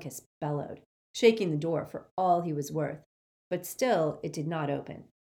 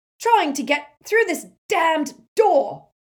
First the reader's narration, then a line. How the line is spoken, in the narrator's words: shouted Amicus